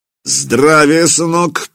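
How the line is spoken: Deep bass voice. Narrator (Russian): пробасил

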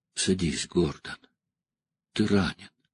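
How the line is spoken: Surprisingly gentle. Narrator (Russian): Деннис сказал поразительно мягко

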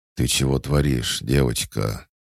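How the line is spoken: Sleepy hoarse voice. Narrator (Russian): Полусонный, хриплый голос Петра

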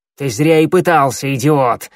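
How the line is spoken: Barked. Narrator (Russian): рявкнула Щербатая

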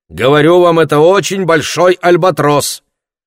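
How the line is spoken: Shouting. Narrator (Russian): Олеко опять крикнул на него

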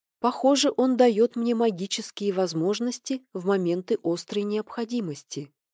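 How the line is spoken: Gentle suggestion. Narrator (Russian): мягко предположила она

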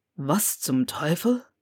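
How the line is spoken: Muttered. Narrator (German): murmelte er

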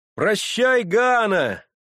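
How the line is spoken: Shouted, young man. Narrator (Russian): закричал в это время один из парубков

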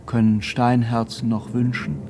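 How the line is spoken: Plain. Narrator (German): sagte jener

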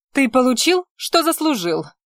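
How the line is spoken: Snapping, teeth clacking. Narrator (Russian): огрызнулась Лютея, клацнув зубами

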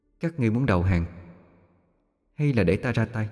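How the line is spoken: Soft, quietly menacing. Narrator (Vietnamese): Giọng nói nhỏ nhẹ, không uy, mà vẫn khiến cho bọn chúng phát run

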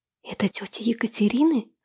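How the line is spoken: Whispered question. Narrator (Russian): снова шепотом уточнила я у Владислава

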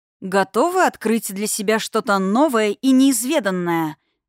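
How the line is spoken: Loud question. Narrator (Russian): громко спросила я

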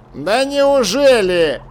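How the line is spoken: Contemptuous snort. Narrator (Russian): Чудакули презрительно фыркнул

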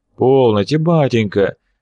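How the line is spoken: More conciliatory interjection. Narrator (Russian): вмешался Семирадский несколько более примирительным тоном

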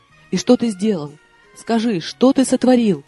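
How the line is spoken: Frightened exclamation. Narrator (Russian): испуганно воскликнула я

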